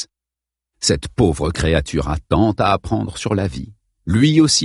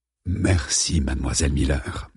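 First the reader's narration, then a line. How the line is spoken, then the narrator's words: Unctuous voice. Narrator (French): dit-il d'une voix onctueuse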